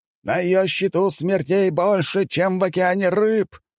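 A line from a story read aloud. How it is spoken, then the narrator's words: Enthusiastic exclamation. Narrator (Russian): восторженно воскликнул мужчина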